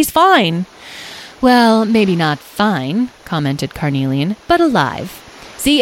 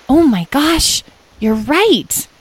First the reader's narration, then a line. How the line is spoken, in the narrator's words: exclaimed Edwin